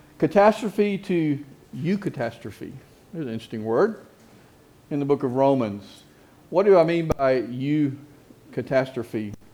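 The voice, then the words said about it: Southern American accent. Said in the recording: “with my southern accent”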